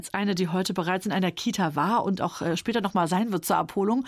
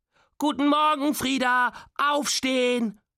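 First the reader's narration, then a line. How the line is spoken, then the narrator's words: Calling extra loudly. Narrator (German): ruft sie extra laut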